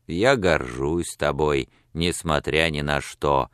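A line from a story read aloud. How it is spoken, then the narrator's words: Even more grumbling tone. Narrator (Russian): сказал он еще более ворчливым тоном, чем прежде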